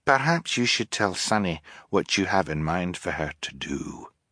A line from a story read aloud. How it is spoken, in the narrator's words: Fiona said gently